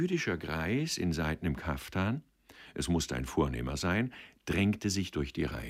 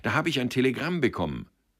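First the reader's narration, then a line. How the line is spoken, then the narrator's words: Breathless call. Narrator (German): rief er atemlos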